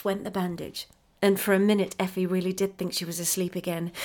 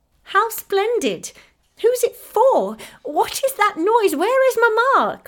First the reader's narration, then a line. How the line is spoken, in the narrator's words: cried Effie, pale with pleasure and surprise